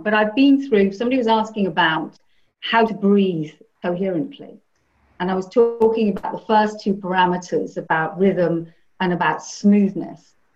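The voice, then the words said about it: Strained, hoarse, fading voice. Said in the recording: “I'm losing my voice at this point”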